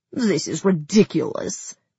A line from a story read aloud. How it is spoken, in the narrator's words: she growled, her muscles shaking beneath my palms